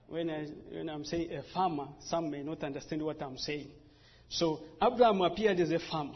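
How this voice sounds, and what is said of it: Speaks with a noticeable accent. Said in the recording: “You can excuse me with my accent”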